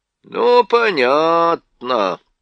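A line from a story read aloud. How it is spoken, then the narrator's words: Drawn-out drawl. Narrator (Russian): протянул Трам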